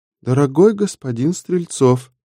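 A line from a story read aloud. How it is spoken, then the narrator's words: Shy, sad translated voice. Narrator (Russian): Голос в трансляторе звучал застенчиво и грустно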